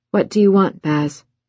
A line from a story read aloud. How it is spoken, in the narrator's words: asked wearily